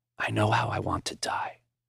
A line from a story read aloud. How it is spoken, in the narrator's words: in a whisper, he said